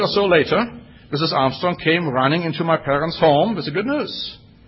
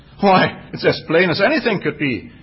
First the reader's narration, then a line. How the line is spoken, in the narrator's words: exclaimed Mrs